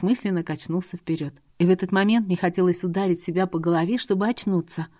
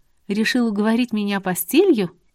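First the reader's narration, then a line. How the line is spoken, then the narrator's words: Laughing, then serious. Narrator (Russian): засмеялся и уже серьезнее ответил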